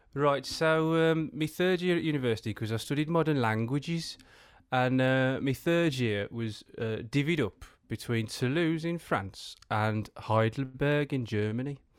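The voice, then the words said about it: West Midlands English accent. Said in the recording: “The West Midlands accent... I want you in a West Midlands accent”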